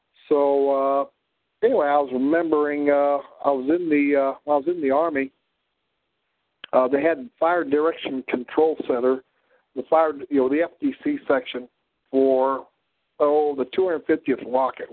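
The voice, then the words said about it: Midwestern prairie drawl with Ozark traces. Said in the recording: “it's not really Southwest Missourian. It's really a combination of a prairie drawl from South Dakota ... and, well, some of the, let me see, Ozarkians here ... it's sort of close, but it's not quite the right accent here”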